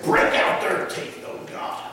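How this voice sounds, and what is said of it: Impression of an elderly preacher. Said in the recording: “That's a pretty good impersonation”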